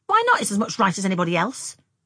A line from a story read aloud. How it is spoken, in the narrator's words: snapped Frances